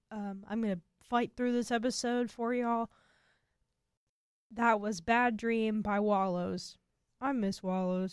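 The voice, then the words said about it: Sick, slightly off voice. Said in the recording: “my voice is a little bit wonky because I've been sick”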